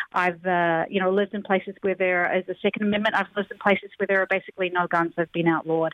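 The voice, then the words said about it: New Zealand accent. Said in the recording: “I grew up in New Zealand ... accent too.”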